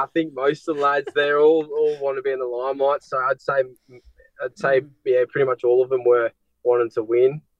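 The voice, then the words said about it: Australian accent. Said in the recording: “They wanted to be the Aussie, yeah. ... Do you find it hard to understand my accent?”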